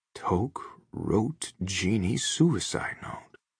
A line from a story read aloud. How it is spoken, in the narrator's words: Bob whispers